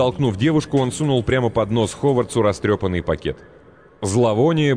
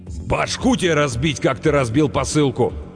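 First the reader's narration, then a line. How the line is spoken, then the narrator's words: Enraged bellow, big man. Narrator (Russian): рявкнул огромный разъяренный детина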